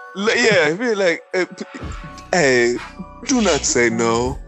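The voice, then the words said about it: Put-on East African accent. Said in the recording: “Look at your old I am the captain now motherfucking accent ... You making fun of fucking poor East African”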